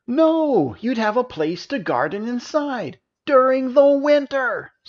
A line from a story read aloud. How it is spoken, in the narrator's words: screamed Minos